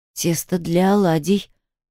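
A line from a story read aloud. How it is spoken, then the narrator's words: Strained, forced out. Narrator (Russian): выдавила я из себя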